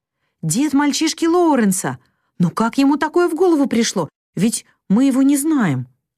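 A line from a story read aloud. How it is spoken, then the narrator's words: Exclamation. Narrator (Russian): воскликнула Мэг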